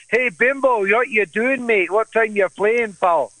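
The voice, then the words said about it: Imitated Scottish accent. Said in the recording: “everyone in their Scottish ... With the accent and everything”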